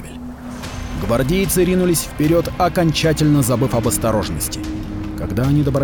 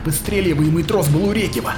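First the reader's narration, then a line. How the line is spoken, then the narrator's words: Growled. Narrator (Russian): прорычала Рахель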